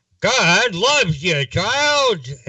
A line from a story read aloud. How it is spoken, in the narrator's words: they shouted